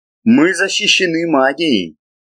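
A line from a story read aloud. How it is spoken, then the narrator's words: Venomous hiss. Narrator (Russian): подобно ядовитой змее, прошипел в спину удаляющемуся Монтару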